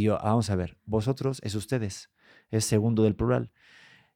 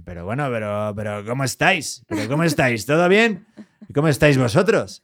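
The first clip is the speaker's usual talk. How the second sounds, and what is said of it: Clumsy imitation of Spanish accent. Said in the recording (Spanish): “cuando intentan hacer el acento español”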